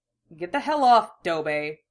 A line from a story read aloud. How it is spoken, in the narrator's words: the Uchiha grunts, then snaps